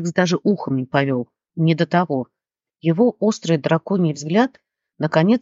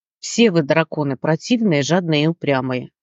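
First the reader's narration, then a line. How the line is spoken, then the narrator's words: Small one grumbling. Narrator (Russian): пробурчал мелкий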